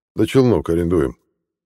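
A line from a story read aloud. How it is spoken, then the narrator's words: Old pilot's wry snort. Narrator (Russian): хмыкнул старый пилот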